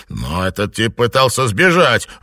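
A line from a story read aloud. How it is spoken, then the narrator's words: Exclaiming. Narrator (Russian): воскликнул его брат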